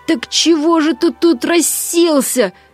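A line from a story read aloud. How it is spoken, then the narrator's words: Sudden roar, cat. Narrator (Russian): взревел вдруг кот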